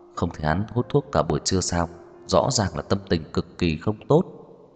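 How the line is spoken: Low voice. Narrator (Vietnamese): Lục Bán Thành nhỏ giọng

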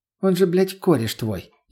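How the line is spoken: Sarcastic, cutting. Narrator (Russian): извительным тоном наступила на больное Лена

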